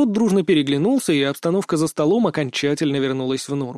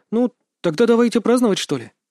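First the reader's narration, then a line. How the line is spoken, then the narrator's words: Timid suggestion. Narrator (Russian): робко предложила Шонта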